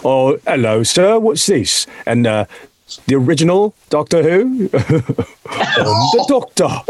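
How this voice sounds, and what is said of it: Posh British butler-like accent. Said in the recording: “a killer accent ... You sounded like a fucking butler, dude.”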